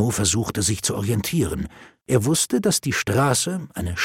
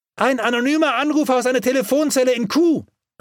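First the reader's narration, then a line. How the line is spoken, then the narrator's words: Called back. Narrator (German): rief zurück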